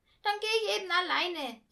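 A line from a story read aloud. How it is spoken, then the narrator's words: Calling out. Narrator (German): rief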